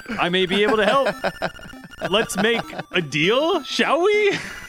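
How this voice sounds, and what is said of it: Character voice, somewhat American-sounding. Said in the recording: “it wasn't anything like your first voice ... it was a cool voice. It almost sounded like an American accent, but not your voice”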